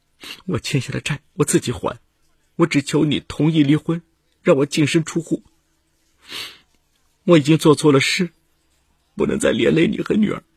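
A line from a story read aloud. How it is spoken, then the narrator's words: Crying. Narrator (Chinese): 吕丽哭着对丈夫说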